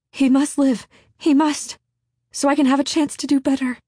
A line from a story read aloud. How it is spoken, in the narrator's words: in a broken cry, Hester breathed